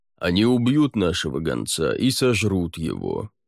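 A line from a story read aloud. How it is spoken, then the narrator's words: Gloomy. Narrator (Russian): мрачно сказал лорд Аббат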